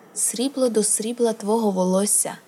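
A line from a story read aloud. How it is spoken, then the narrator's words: Plain. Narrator (Ukrainian): сказав тобі Кхал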